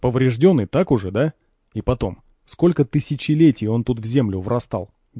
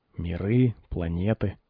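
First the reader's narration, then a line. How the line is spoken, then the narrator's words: Muttering. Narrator (Russian): пробормотал Пригоршня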